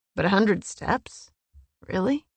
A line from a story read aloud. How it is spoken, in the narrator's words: she grumbled